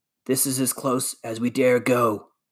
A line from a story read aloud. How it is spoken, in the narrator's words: whispered